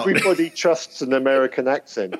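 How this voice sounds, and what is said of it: Put-on English accent. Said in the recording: “this English accent is so hard to maintain”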